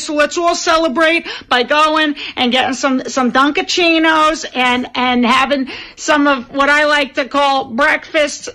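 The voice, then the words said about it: Exaggerated Boston accent. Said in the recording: “doing the Boston accent”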